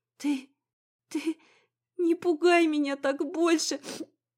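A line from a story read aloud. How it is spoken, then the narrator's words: Sobbing mumble. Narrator (Russian): Всхлипывая, бормотала я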